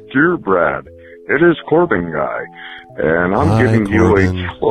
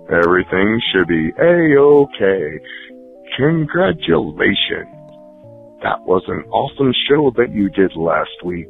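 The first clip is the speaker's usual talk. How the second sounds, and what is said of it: Exaggerated radio announcer voice. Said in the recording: “I am now, for on word of time, going to use my radio voice every time I talk to people. This is my radio voice.”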